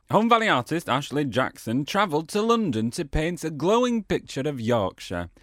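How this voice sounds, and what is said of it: Put-on Yorkshire accent. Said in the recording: “I'm going to read this in a Yorkshire accent.”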